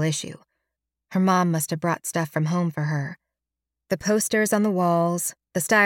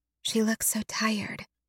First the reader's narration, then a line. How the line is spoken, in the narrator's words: Halliday whispers